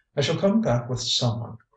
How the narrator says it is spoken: cried the invisible woman

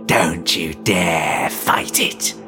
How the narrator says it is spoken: his reflection hissed

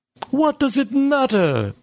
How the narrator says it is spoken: Bergson yelled

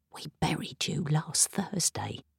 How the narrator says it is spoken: I whispered

